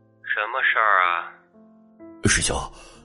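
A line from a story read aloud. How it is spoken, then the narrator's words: Cold male voice. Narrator (Chinese): 那边传来冷淡的男子声音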